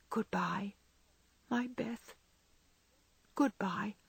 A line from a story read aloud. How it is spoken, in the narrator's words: softly whispered